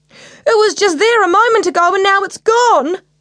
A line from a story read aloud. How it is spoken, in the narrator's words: cried Max